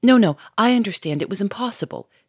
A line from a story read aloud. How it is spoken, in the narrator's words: she cried quickly